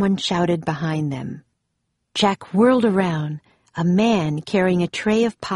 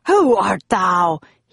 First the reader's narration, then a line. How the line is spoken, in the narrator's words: He asked angrily